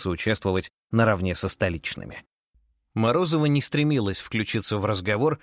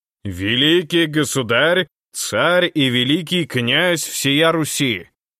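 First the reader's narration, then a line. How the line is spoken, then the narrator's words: Booming servant's proclamation. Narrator (Russian): зычным голосом провозгласил слуга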